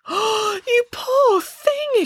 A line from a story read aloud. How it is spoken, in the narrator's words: exclaimed Boris